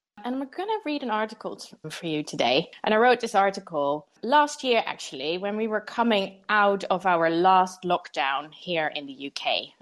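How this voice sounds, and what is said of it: Dutch accent. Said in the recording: “You might hear from my accent that I'm not actually from London. I'm from the Netherlands”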